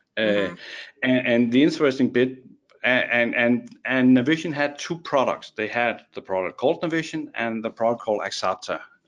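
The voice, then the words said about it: Danish accent in English. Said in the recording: “my strange accent is because I'm actually Danish”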